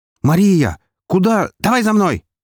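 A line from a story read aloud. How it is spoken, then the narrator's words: Shouted. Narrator (Russian): крикнула она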